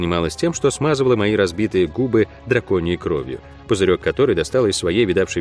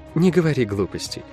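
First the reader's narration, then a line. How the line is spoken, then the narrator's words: Soft. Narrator (Russian): мягко ответила она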